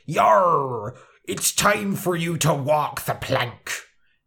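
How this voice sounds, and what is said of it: Pirate accent. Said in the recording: “pirates talk like ... they have this very distinctive accent”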